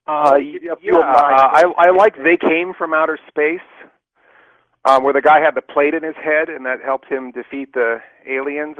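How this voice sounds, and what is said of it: British accent. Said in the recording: “I love the British hosts with that accent.”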